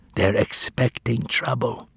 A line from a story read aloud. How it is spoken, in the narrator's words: whispered